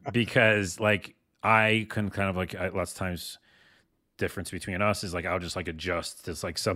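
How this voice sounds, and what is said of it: Usual voice. Nothing is said of it.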